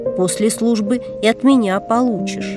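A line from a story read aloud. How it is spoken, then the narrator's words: Hissing. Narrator (Russian): Гришка прошипел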